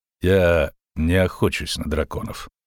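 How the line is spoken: Dry, curt. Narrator (Russian): сухо сказал Геральт

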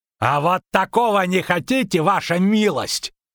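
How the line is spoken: Shouting captain. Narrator (Russian): крикнул капитан

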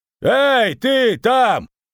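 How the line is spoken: Yelled. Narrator (Russian): заорал

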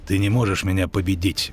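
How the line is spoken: Grumbled mutter. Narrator (Russian): буркнул Доплер

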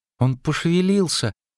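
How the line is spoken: Sighing. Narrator (Russian): вздохнула Цири

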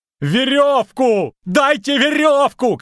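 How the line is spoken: Shouting. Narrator (Russian): кричал Лютик

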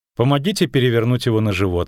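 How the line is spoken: Plain. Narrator (Russian): сказала женщина

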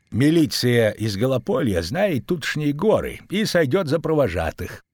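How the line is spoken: Quiet. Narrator (Russian): тихо сказал Богольд

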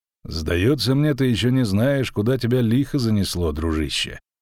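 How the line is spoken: Calm stranger. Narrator (Russian): спокойно проговорил незнакомец

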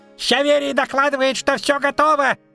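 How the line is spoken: Squeaky. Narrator (Russian): пискнуло оно

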